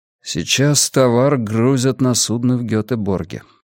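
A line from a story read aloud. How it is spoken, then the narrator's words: Quiet. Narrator (Russian): тихо сказал Аксель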